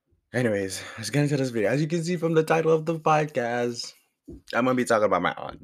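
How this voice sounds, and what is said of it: Deep hoarse sore-throat voice. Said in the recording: “my voice sounds like this because I have a very sore throat ... I sound like Darth Vader ... I really have a deep voice. It's like in between. I go high, I go low.”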